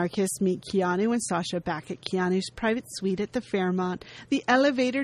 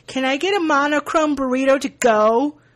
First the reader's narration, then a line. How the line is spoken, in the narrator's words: he yells to the waitstaff